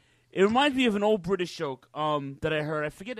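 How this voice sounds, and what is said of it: Usual voice. Nothing is said of it.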